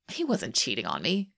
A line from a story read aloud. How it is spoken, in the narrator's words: Shane scoffs